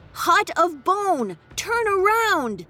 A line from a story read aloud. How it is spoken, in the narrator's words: spinning around as she bellowed